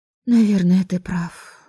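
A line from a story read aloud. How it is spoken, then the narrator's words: Sighing. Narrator (Russian): вздохнула я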